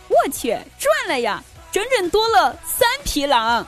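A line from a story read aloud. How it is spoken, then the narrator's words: Cheerful, laughing. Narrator (Chinese): 他笑着对我们说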